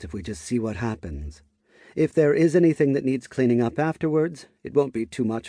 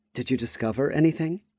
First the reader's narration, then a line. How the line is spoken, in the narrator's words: Petra asked, anxiously